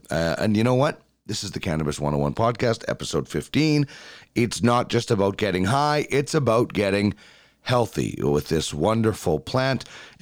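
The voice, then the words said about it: Sick, cold-affected voice. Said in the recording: “apologize for my voice. ... I have been battling a cold this entire week, so I do apologize in advance for how I sound.”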